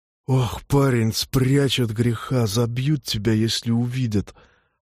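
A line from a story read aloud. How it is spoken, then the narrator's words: Hoarse whisper nearby. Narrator (Russian): Раздался поблизости чей-то сиплый шепот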